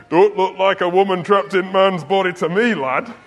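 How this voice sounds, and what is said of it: Imitated Yorkshire-ish accent. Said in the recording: “not really a Birmingham accent, was it? It was more a Yorkshire accent, really. Wasn't really a Yorkshire.”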